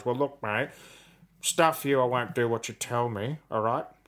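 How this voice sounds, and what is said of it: Imitates another person's voice. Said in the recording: “can I request a Buzz impersonation”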